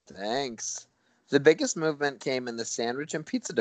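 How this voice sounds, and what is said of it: Usual voice. Nothing is said of it.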